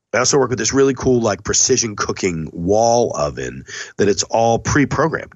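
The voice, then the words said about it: Sick, sniffly voice. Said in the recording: “I'm going to sniffle ... You guys can hear it in my voice. I'm already sick. I've got a 101 degree fever today.”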